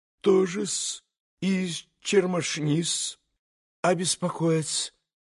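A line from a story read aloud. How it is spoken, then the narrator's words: Flustered near-whisper mutter. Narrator (Russian): пробормотал Смердюков почти шепотом, точно как бы потерявшись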